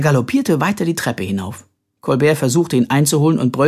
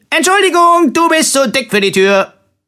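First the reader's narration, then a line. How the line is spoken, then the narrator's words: Cheerful call. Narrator (German): rief fröhlich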